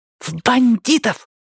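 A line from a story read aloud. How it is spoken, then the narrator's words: Boy hissing. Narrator (Russian): прошипел мальчик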